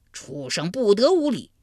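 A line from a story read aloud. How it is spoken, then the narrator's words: Thunderous roar. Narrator (Chinese): 他这一吼，如晴天响了一声霹雳，震得山摇地动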